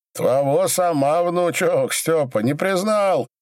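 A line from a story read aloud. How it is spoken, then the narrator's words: Frenzied yelling. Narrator (Russian): неистово орал Иван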